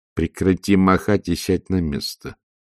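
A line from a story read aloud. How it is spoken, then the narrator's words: Distracted mumble. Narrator (Russian): пробормотала матушка, стараясь не упустить свое видение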